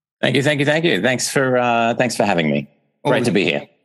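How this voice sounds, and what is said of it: Australian accent. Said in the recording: “The accent kind of gives it away ... I'm from uh, Australia”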